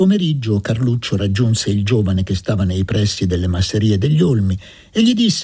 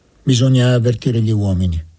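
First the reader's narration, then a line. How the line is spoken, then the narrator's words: Plain. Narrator (Italian): disse Luca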